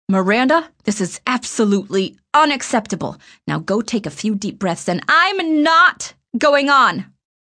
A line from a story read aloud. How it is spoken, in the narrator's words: I said loudly, and the tears came to my eyes fairly easily